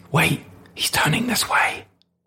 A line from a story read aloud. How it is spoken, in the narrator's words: his brother whispering back